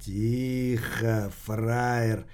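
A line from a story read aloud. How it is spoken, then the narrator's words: Whispered. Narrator (Russian): прошептал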